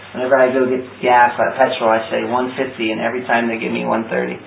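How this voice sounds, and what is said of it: American accent. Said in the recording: “My problematic American accent.”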